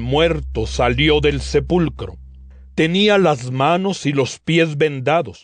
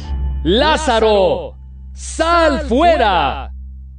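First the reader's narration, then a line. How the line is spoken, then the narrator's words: Loud commanding exclamation. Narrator (Spanish): exclamó Jesús con fuerte voz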